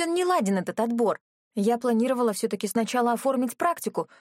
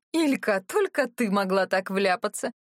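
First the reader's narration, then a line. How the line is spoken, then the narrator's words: Laughing loudly. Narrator (Russian): расхохоталась Галина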